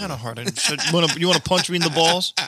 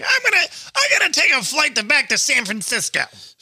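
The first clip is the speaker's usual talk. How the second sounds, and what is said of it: Imitates another person's voice. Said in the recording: “That's a really good, great Gilbert Gottfried impression”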